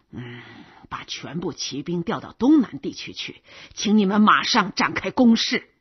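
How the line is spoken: Heavy muttering. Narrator (Chinese): 菲兹哈拉乌洛夫沉重的坐下去，嘟嘟囔囔的说

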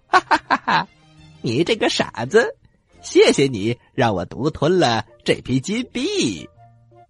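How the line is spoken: Laughing. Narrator (Chinese): 他还大笑的说

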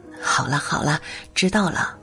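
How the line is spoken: Soft soothing. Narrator (Chinese): 琳琳轻声安慰着乔安

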